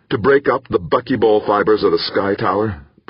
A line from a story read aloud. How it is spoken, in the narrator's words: Bracknell asked urgently